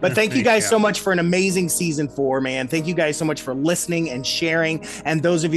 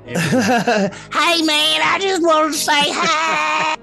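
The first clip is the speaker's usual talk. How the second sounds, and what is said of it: Impression of the Jersey Devil. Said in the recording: “That's my impression of the Jersey Devil”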